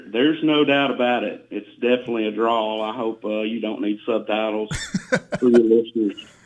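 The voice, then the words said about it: Southern US accent with twang. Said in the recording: “I can hear that southern twang in your accent there ... that twang and that draw”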